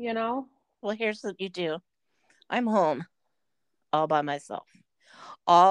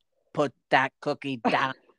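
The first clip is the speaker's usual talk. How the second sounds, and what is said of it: Imitates another person's voice. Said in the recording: “that's Arnold Schwarzenegger... I recognize the accent now”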